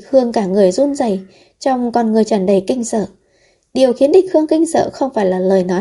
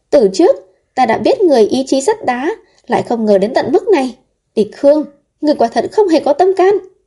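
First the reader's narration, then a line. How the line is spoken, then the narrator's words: Furious, tearful loud shout. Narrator (Vietnamese): nàng ta phẫn nộ, vừa lau nước mắt, vừa cao giọng quát lớn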